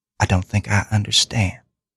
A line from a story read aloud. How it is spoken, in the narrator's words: Miss Holesapple murmured